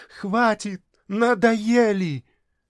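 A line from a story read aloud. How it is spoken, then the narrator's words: Girl screaming with all strength. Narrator (Russian): девочка, что есть силы, закричала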